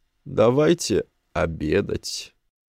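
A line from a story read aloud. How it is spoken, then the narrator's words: Hoarse voice. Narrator (Russian): он сказал севшим голосом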